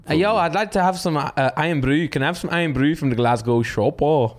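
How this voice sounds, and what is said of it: Put-on Scottish accent. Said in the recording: “Do a Scottish accent.”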